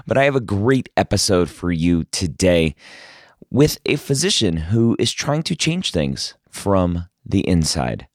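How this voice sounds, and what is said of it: Strained, failing voice. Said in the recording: “apologize for my voice... I am losing it”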